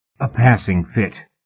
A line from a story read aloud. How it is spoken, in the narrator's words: Mallory croaked